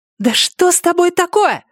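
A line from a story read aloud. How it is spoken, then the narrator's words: Yelling. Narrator (Russian): заорала она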